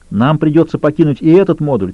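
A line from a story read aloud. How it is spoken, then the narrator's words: Shouted. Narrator (Russian): крикнул Лютер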